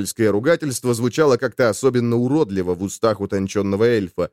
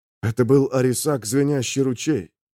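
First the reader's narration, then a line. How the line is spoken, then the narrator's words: Muffled, pained. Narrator (Russian): глухо спросил Эльнир, и его сердце сжалось от боли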